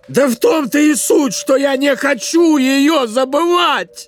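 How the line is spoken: Shouting. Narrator (Russian): крикнул он

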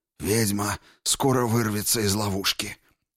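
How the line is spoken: Hoarse voice. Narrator (Russian): хрипло произнес кто-то

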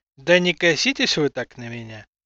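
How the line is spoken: Sighed. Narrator (Russian): вздохнул

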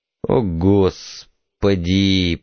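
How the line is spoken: Moaning. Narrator (Russian): простонал супруг

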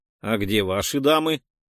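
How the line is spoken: Plain. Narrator (Russian): спросил Штанько

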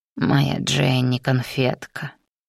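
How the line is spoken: Hoarse mutter. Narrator (Russian): севшим голосом пробормотал

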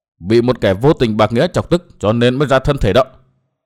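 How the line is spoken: Cold speech. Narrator (Vietnamese): Tiêu phu nhân lạnh lùng nói tiếp

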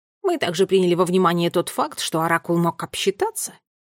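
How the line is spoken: Interjecting. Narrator (Russian): вмешался помощнику

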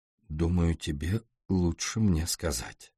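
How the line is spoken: Quiet and calm. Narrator (Russian): Она произнесла так же тихо и спокойно

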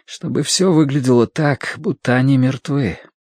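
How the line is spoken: Slightly trembling voice. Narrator (Russian): сказал Мэтью слегка дрогнувшим голосом

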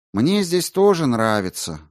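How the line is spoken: Sad. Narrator (Russian): грустно сказал Грошев

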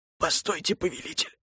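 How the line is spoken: Strained whisper. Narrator (Russian): сдавленно прошептал целитель

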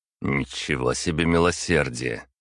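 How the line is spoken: Snorting. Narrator (Russian): фыркнул я

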